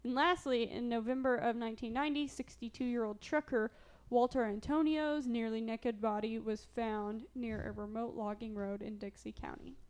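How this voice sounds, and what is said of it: Southern Illinois accent. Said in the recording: “That's my Southern Illinois accent. ... I don't say naked. I say naked.”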